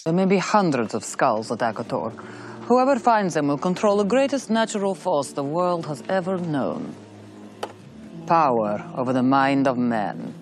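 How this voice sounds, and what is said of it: Exaggerated bad Russian accent. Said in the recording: “does such a cartoony and bad Russian accent”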